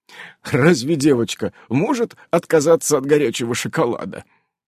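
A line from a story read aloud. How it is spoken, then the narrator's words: Giggle. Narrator (Russian): хихикнул Иннокентий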